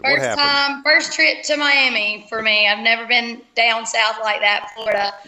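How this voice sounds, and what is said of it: Slight twang accent. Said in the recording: “I love your accent. You got a little tiny twang thing going on over there.”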